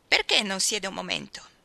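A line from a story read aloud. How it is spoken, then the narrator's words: Shrill inviting voice. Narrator (Italian): la invitò con la sua voce stridula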